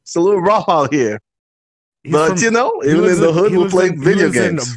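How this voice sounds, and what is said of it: African and Northeast American accent. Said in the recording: “you'll hear the African accent, and then on top of that, you'll hear some, Northeast American accent”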